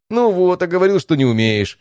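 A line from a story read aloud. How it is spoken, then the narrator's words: Laughing. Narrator (Russian): рассмеялся Стас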